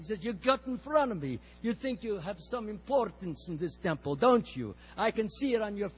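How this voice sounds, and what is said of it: Imitated strong Russian accent. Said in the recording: “I'll imitate a little bit to him. He has a strong Russian accent.”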